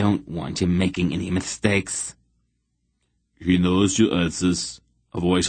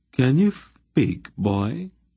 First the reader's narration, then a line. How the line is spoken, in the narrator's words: He asked Geryon, His voice had a strange contralto quality to it